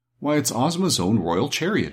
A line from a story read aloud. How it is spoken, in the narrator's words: exclaimed Dorothy